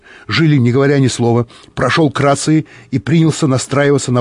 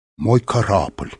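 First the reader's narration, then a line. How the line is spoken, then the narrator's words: Bewildered. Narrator (Russian): растерянно повторил Корф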